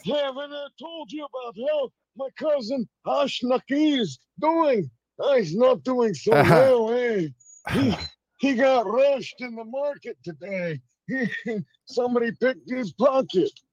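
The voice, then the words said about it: Jerky Boys style prank-call impersonation. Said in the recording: “It's like the jerky boy ... that was a pretty good impersonation”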